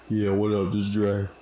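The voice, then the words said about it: Put-on deep voice. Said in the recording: “Had the deep voice.”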